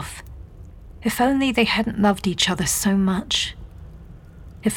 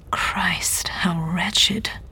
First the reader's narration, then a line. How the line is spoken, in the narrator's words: he said his voice barely above a whisper